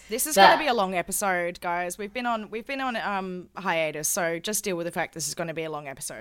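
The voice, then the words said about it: Strained voice cutting out. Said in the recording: “my voice is cutting out a little bit”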